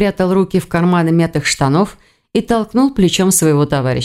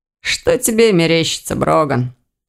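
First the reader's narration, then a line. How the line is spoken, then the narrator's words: Snorting. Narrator (Russian): хмыкнул Ирс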